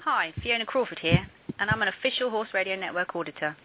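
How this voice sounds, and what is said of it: Unique accent. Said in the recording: “this one has a unique accent.”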